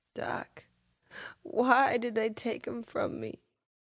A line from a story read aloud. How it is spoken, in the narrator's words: She sobbed